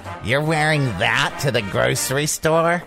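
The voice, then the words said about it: Imitates an overbearing mother's voice. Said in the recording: “I'm talking like my mom now.”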